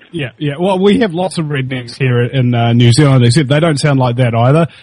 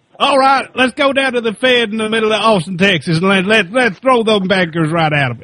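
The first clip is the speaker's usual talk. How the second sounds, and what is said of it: Put-on American redneck accent. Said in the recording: “that is a very Kiwi-oriented impersonation of a redneck”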